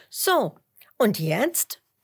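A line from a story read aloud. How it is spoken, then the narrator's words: Plain. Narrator (German): fragt Huberto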